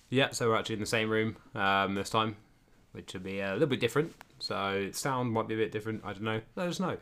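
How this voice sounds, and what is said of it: Flat, monotone voice. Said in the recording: “I'm probably sounding pretty monotone today, because we drank quite a bit last night.”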